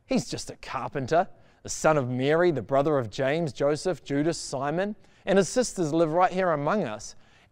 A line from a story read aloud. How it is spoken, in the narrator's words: they scoffed